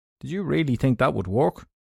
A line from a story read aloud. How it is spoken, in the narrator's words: the stoker said